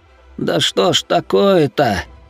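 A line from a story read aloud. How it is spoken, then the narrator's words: Grumble. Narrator (Russian): проворчал Хироши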